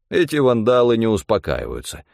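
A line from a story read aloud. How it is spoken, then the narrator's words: Scoffing snort. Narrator (Russian): хмыкнул Стефан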